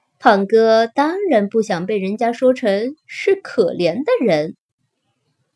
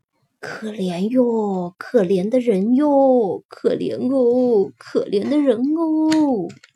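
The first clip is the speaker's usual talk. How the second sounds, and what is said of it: Soft, hushed voice. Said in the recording (Chinese): “小声地说”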